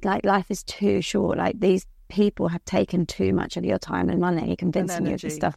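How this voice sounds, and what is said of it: Middle-class southern English accent. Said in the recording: “I've got quite a, you know, middle class southern English accent.”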